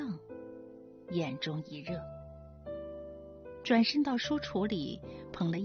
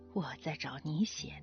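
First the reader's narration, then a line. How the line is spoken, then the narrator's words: Laughing low mumble. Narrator (Chinese): 父亲笑着低声嘟囔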